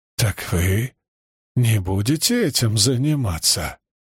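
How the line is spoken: Hoarse, slurred with rage. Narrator (Russian): Его голос стал хриплым, неразборчивым от ярости

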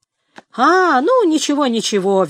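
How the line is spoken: Cheerful. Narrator (Russian): весело отозвался Фарфре

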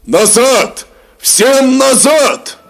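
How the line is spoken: Commanders shouting. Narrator (Russian): кричали полководцы

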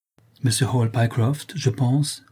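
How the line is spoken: Plain. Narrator (French): dit-il

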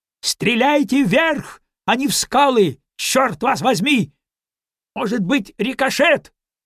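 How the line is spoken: Shouted. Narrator (Russian): Ньюстед крикнул

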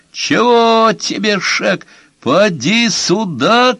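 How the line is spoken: Shouting. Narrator (Russian): кричал Шек

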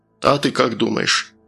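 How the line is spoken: Displeased grunt from speaker. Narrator (Russian): Динамик недовольно хмыкнул

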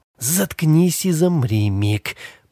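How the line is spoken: Hoarse rasp. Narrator (Russian): прохрипела она

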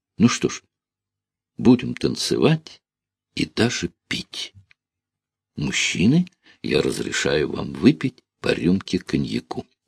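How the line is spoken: Cheerful. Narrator (Russian): Лина весело сказала

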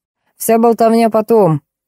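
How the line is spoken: Doctor barking. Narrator (Russian): врач скорой помощи и рявкнул

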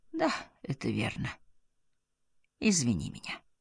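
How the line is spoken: Sad, with a sigh. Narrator (Russian): печально, со вздохом сказал

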